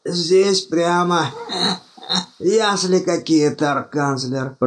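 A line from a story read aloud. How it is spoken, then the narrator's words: Wheezed. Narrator (Russian): прохрипел Думинг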